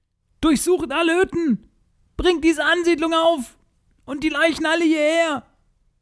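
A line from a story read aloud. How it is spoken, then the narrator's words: Shouting orders. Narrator (German): Sie schrie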